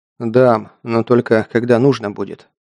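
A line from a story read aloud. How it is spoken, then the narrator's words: Calm. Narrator (Russian): ответил Саша спокойно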